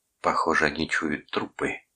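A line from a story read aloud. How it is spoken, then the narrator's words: Whisper. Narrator (Russian): прошептал Дженнингс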